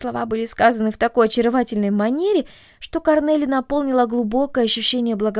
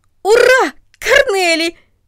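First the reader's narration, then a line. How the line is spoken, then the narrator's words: Shouting. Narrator (Russian): закричал он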